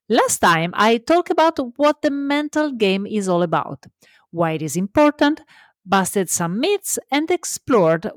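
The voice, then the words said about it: Italian accent. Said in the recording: “remember always that I am Italian, so love my accent”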